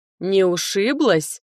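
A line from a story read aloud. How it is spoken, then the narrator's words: Grumbled. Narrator (Russian): пробурчал стражник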